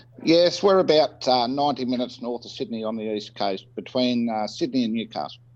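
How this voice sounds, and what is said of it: Australian accent. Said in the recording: “if you can't tell from the accent, is Australia. And if you couldn't tell from the accent,”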